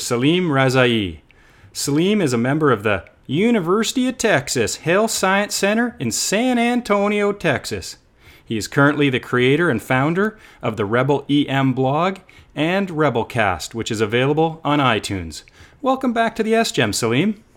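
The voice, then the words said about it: Imitated Texan accent. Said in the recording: “How'd I make out on a Texan accent? ... Sounded pretty solid. Needs a little bit of work.”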